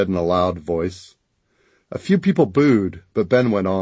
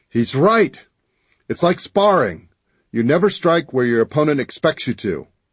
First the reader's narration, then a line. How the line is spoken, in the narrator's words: I sucked in a deep breath and bellowed